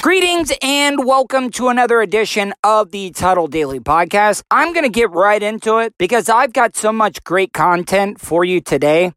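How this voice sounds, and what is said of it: Hoarse, strained voice. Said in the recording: “my voice is absolutely wrecked because I got into a screaming match ... I practically blew my voice out”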